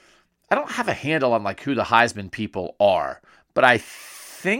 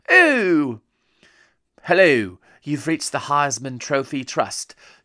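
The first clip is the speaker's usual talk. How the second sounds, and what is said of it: Put-on fancy British accent. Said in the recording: “like those American people who talk with a British accent for no reason”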